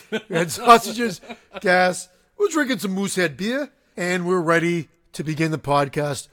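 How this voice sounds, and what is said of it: Attempted Canadian accent. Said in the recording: “Was that a Canadian accent you were trying to do?”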